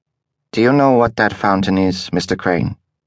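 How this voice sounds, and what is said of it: Mid-European accent. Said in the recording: “she asked, in her mid-European accent.”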